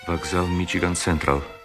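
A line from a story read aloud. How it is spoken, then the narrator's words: Very quiet. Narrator (Russian): сказал ему Герствуд так тихо, что Кэрри не могла его слышать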